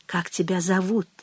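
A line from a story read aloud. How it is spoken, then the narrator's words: Whisper from lips' corner. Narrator (Russian): краешком губ шепнула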